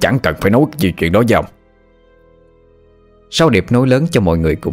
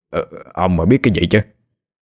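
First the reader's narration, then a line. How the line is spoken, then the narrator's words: Stammering. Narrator (Vietnamese): Ông thầy kia ú ớ lắp bắp nói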